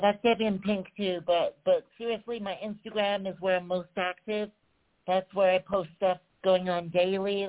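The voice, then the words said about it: American-sounding accent. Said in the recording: “I'm originally from England. I'm from Surrey. I know I probably sound American to English people now”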